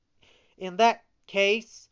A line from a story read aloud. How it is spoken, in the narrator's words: cried Pinocchio